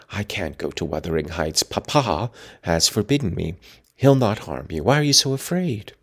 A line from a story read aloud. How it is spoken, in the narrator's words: whispered Catherine